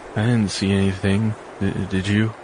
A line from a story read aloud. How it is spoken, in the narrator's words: he muttered